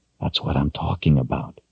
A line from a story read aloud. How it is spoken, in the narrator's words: he whispered